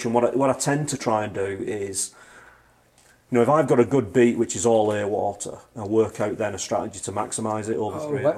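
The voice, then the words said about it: Speaker's own distinctive accent. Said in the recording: “It's my funny accent.”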